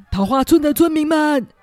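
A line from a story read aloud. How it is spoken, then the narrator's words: Shouting through streets. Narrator (Chinese): 村长沿街喊叫着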